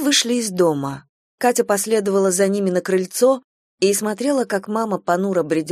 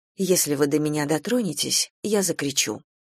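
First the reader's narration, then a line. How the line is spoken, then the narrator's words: Calm. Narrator (Russian): она спокойно сказала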